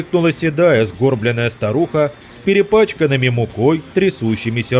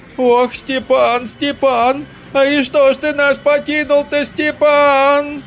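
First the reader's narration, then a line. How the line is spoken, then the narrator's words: Shrill wailing. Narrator (Russian): заголосила Рататиха пронзительным голосом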